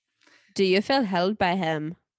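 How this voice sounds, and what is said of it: Terrible put-on Swedish accent. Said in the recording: “that was a terrible Swedish accent.”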